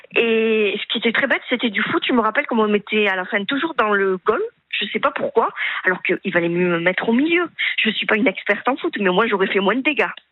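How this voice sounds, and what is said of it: Slight southern French accent. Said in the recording (French): “vous avez un petit accent du Sud”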